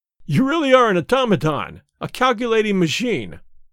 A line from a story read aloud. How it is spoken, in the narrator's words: I cried